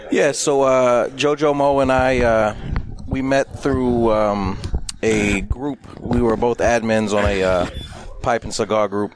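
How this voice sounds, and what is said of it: Newark New Jersey accent. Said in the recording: “I'm originally from Newark, New Jersey. Mm-hmm. Hence the accent. I don't sound like I'm from North Carolina.”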